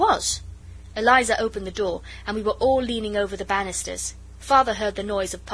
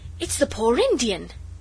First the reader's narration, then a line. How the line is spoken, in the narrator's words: Noel cried